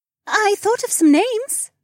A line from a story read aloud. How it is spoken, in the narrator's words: Becca said in a cheery tone